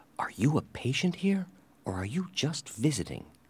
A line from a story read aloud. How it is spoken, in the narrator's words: asked him quietly